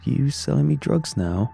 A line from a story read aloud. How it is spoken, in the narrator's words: Jason laughed